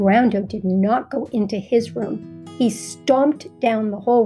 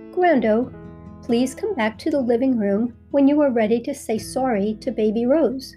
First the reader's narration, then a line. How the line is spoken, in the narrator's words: said in a calm voice